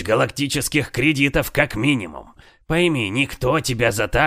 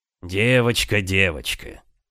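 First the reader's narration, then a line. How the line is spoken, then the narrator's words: Heavy weary sigh. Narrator (Russian): Тяжело вздохнул инструктор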